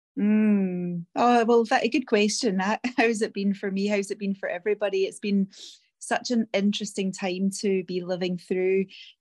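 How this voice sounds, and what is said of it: Scottish accent. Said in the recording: “in case you didn't notice the accent, she comes to us many years ago from Scotland”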